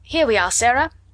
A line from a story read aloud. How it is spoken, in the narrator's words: said Captain Crewe, making his voice sound as cheerful as possible